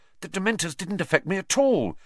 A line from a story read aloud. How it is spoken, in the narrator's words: Harry said excitedly